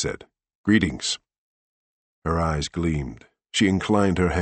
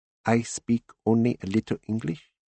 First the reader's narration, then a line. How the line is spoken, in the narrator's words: she said slowly in a heavily accented, quiet voice